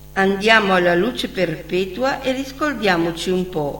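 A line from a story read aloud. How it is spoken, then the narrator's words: Plain. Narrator (Italian): rispose Mizzi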